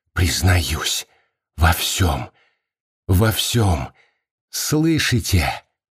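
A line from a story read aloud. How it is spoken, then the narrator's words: Whisper. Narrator (Russian): Маргарита прошептала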